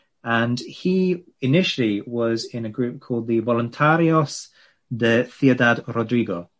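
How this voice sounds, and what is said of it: Poor attempt at Spanish accent. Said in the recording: “That was an attempt at a Spanish accent. Appalling.”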